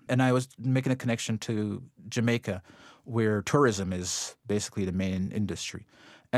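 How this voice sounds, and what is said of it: Slight Jamaican lilt. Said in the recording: “you're originally from Jamaica. That's where that little lilt in your voice comes from. ... I'm playing down my patois ... I can still hear it.”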